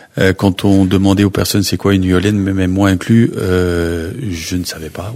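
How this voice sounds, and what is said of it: Slight Belgian French accent. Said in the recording (French): “je suis belge, ça s'entend tout de suite certainement à mon petit accent.”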